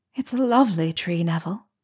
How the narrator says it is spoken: said softly

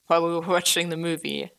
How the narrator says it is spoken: Eddie laughed

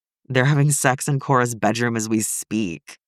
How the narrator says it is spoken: Derek moans

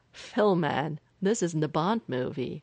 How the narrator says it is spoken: Clint laughed

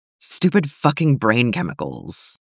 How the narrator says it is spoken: Tim muttered

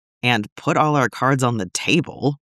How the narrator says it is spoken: Neild scoffs

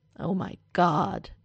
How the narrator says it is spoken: Derek groans, and it's less a fun groan than exasperation

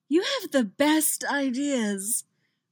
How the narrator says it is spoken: Reggie groans into Alex's mouth

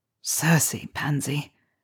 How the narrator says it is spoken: he breathed

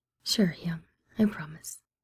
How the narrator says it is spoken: Sun Guan murmuring

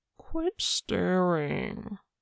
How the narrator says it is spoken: Wanu whined

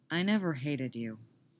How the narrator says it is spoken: Tim says evenly

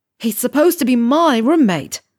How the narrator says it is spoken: he scream shouts at Ron

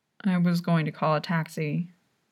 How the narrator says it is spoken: Juan mumbles

